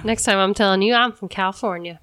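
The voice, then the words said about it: Put-on Southern US accent. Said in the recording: “I don't know why I had a Southern accent.”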